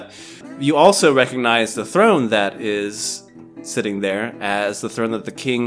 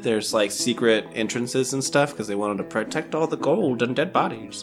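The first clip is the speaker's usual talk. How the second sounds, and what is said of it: Silly put-on voice. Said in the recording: “I did that in a stupid voice”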